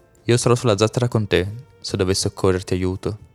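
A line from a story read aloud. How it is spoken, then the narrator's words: Plain. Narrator (Italian): disse Folo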